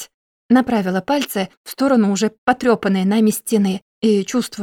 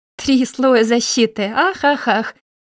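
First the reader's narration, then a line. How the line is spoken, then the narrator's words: Laughing. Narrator (Russian): засмеялся Винни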